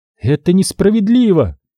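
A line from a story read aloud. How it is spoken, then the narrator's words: Furious exclamation. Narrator (Russian): с яростью воскликнула она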